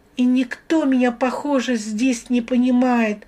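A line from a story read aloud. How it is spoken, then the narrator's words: Sobbing. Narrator (Russian): рыдая, продолжала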